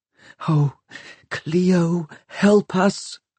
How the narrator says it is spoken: breathed Catherine

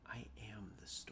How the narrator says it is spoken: whispered back

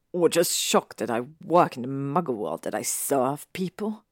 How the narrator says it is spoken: He said with a sneer

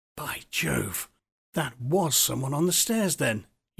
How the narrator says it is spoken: he muttered, his flesh crawling all over

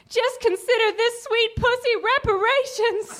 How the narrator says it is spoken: called out

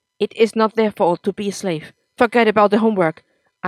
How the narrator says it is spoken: Akam said in an angry tone

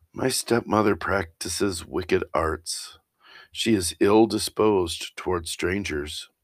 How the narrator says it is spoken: The maiden sighed and said

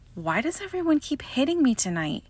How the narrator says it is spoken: whined

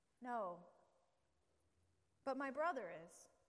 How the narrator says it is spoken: sadly, she said

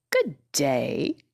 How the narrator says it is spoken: said the scarecrow in a rather husky voice

